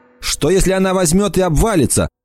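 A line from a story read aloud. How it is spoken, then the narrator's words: Shouting. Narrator (Russian): прокричала Эмма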